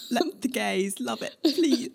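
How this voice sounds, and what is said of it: Attempted New Zealand accent impression. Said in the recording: “I'm just picturing that in her New Zealand accent... I can't do it.”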